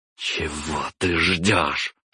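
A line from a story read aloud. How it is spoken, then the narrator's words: Through gritted teeth. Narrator (Russian): процедила сквозь зубы Наталья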